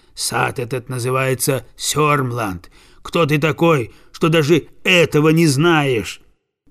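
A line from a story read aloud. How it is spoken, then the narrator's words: Gardener's rough voice. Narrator (Russian): Садовник грубым голосом отвечает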